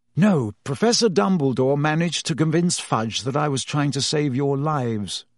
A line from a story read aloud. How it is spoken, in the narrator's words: sighed